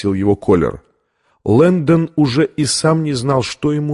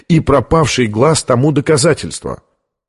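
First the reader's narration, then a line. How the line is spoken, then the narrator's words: Sharper than intended. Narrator (Russian): заявил он более резким тоном, нежели намеревался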